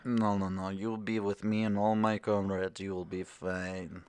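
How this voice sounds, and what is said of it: Scary Russian accent. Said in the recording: “you say it like that in your scary Russian accent”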